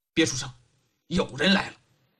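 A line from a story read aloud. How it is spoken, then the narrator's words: Low hushed voice. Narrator (Chinese): 李元芳压低声音说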